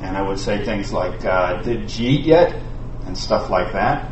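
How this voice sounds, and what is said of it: New York accent. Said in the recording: “I'm a Jewish kid from New York City ... If I was talking like I really talked, I'd talk like this.”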